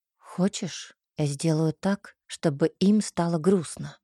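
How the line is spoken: Whisper in ear. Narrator (Russian): Шепнул мне на ухо Кей

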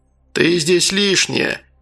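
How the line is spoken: Rude burly man. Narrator (Russian): грубо сказал здоровяк

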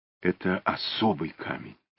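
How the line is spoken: Mysterious whisper. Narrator (Russian): таинственным шепотом сообщила Инга

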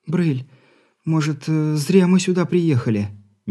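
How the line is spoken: Uncertain, wife. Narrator (Russian): Неуверенно произнесла жена

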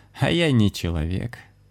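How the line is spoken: Laughing woman. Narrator (Russian): рассмеялась цыганка

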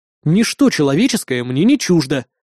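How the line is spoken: Snorting. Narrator (Russian): фыркнул я

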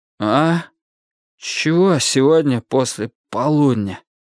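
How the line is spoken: Hoarse croak. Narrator (Russian): прохрипел

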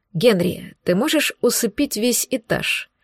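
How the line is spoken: Quiet question. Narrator (Russian): тихонько спросил Кирилл

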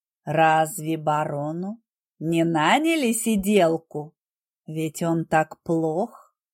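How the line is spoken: Ingratiating voice. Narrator (Russian): Голос графа звучал вкрадчиво

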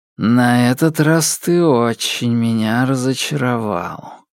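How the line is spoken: Sigh. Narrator (Russian): вздохнул Темса

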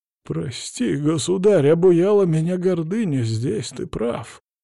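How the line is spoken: Hoarse priest. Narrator (Russian): хрипло произнес поп

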